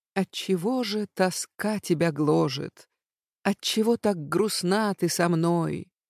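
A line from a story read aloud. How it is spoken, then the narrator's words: Whispering. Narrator (Russian): нашептывал Владик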